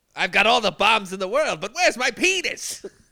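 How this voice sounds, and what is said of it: Inconsistent put-on accent. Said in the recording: “that voice ... The accent changes from word to word.”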